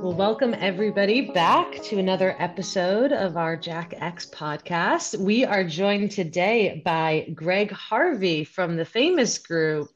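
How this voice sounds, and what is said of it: Professional radio voice. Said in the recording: “You have a nice radio voice. Sounds very professional.”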